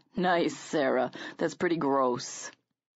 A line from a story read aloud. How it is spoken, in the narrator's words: Evan chuckled and said